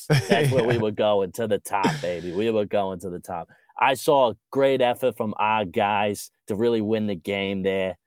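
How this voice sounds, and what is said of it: Boston accent impression of Kevin Mackey. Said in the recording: “Is that a real accent? ... Boston accents definitely rank in the top three for me.”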